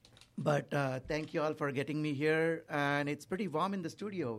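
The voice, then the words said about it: Voice in poor condition. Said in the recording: “my voice is not good”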